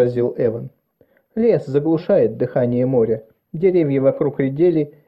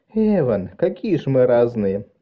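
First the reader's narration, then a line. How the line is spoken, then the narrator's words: Delighted laughter. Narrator (Russian): рассмеялась, почему-то обрадовавшись этому контрасту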